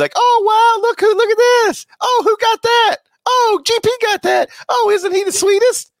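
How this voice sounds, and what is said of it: Impression of impressed onlookers. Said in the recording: “that was an impression of other people witnessing a delivery person”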